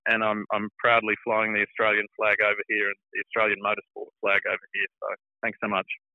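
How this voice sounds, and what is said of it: Australian accent. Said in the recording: “I obviously clearly haven't lost my Australian accent”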